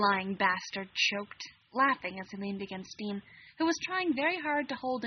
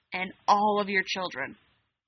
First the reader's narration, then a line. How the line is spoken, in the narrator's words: Alec growled at Sam